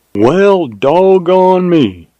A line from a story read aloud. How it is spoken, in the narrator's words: exclaimed Jim in mild surprise